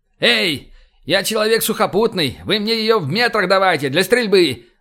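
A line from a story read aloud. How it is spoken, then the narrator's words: Yelled. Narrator (Russian): заорал я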